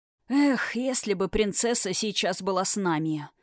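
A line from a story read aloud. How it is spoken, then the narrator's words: Sighing. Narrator (Russian): вздохнул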